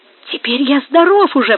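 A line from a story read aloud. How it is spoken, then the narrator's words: Exclamation. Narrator (Russian): воскликнул Эммануэль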